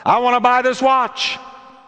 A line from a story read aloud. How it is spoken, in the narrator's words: The stranger blurts out